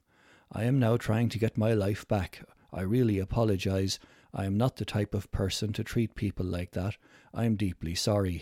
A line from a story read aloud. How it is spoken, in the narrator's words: he said